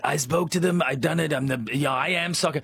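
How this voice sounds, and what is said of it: Imitates another person's voice. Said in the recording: “Trump. ... Amazing impersonation. ... Yeah, it's not bad.”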